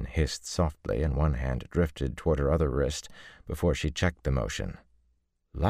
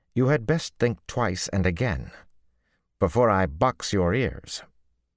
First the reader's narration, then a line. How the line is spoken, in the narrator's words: Nynaeve said indignantly